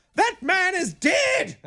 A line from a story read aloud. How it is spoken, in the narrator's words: your child yells out